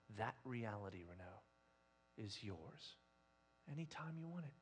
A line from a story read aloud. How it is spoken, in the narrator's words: whispers